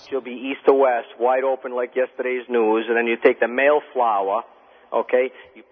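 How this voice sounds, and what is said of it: Rhode Island accent. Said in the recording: “You talk like one of those mobbed up gangsters on The Sopranos. ... that's a Rhode Island accent ... you got a Rhode Island accent”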